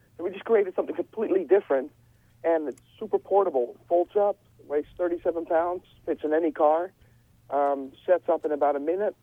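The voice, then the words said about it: Dutch accent. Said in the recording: “I can hear that Dutch accent in you”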